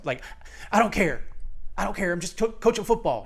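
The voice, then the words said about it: Imitates another person's voice. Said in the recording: “That's a pretty bad Edwards impersonation”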